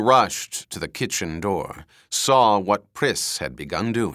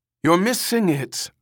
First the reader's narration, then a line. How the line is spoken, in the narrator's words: Ermgard called anxiously to Priss